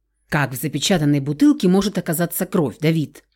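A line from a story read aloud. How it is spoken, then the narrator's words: Skeptical snort. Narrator (Russian): скептически хмыкнул Рауль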